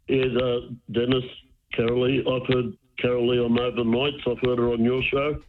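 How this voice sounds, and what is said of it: Unwell-sounding voice. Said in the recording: “Sorry about my voice. I'm not well.”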